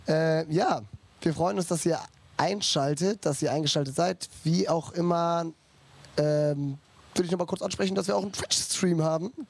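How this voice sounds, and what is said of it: Hoarse, nearly lost voice. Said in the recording (German): “meine Stimme ist weg”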